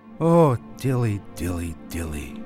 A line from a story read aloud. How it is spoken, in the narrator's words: sighed Simkin